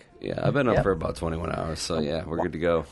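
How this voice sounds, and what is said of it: Sleepy-sounding voice. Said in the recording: “You sound sleepy.”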